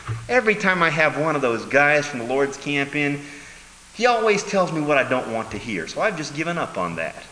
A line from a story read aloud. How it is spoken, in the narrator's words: Ahab whines and says